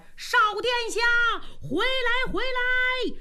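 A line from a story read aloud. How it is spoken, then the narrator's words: Loud shout. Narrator (Chinese): 有人高喊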